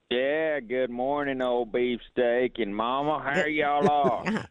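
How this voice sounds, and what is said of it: Put-on redneck voice. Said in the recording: “he's doing his redneck voice.”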